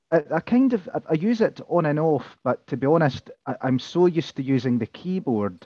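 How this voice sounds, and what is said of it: Scottish accent. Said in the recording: “your Scottish accent? ... the Scottish accent”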